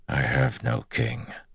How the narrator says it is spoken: Lan said softly

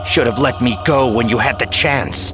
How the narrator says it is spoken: Jason snarled

